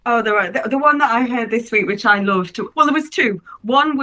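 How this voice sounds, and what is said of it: Usual voice. Nothing is said of it.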